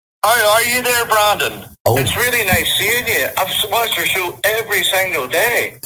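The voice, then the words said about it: Put-on Northern Irish accent. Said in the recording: “I've even picked up the Northern Irish accent. I can do one. ... You can do a Northern Irish accent?”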